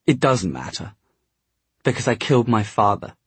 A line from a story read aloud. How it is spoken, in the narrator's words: Gabriel said in a shaking voice